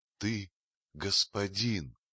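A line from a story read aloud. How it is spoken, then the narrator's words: Quiet voice. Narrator (Russian): тихим голосом сказала ему Багира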